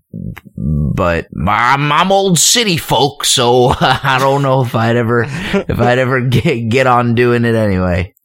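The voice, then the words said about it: Put-on country accent. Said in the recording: “you just affected a country accent.”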